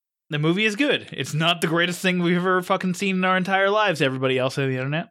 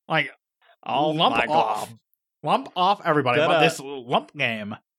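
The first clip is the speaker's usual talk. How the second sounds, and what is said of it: Cartoon character voice impression. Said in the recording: “doing an LSP impression”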